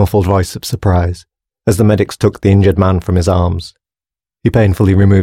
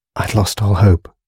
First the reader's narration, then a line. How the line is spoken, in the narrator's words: whispered Sanders